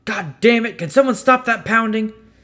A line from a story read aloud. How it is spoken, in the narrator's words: one of the meatheads shout